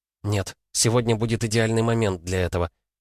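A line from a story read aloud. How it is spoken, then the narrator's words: Quiet reply. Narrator (Russian): тихо ответила девушка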